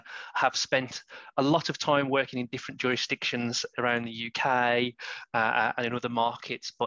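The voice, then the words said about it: West Midlands English accent. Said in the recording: “I'm from the West Midlands, and I'm sure that accent is coming through loud and clear ... the accent never left me”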